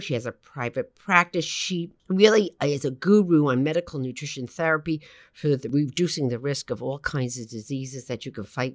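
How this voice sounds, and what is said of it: Brooklyn accent. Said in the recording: “Brooklyn, which you know, you can sound my accent”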